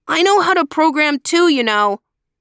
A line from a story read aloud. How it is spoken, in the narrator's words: said loudly